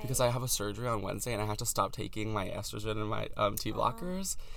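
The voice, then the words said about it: Voice sounds weird, lower. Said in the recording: “My voice sounds weird ... my voice is dropping again”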